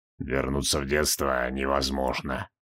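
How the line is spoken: Gloomy. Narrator (Russian): мрачно произнес Нергал

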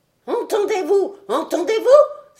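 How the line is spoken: Old man exclaiming. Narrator (French): s'écria le vieillard

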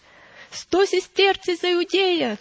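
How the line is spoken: Shouting. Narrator (Russian): кричал сенобалат римлянам

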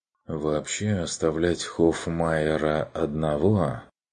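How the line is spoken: Uncertain. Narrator (Russian): проговорил Ланс неуверенно

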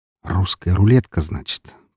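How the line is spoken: Muttered. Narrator (Russian): пробормотал

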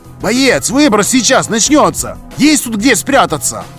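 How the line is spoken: Stranger shouting. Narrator (Russian): Прокричал неизвестный гость

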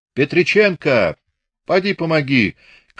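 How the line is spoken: Sharp falsetto shout. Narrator (Russian): крикнул он резким фальцетом

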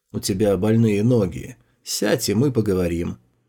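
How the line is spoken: Calm. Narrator (Russian): он спокойно произнес

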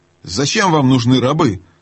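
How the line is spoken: Menacing question. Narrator (Russian): грозно спросил Каспиан

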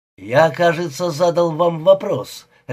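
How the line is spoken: Barking. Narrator (Russian): рявкнул Мулин

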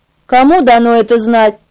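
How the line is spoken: Cold reply. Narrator (Russian): холодно ответил он

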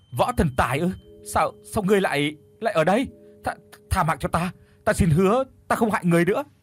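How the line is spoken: Terrified stammering. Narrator (Vietnamese): Kim thiên thử lúc này tái mét mặt mũi, lắp bắp nói không ra lời

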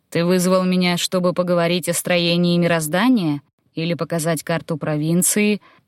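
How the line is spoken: Calm, indifferent. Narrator (Russian): Отозвался легат спокойным, даже безразличным голосом

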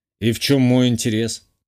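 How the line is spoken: Skeptical snort. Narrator (Russian): хмыкнул я

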